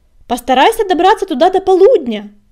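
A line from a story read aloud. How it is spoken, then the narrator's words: Shout. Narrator (Russian): крикнул он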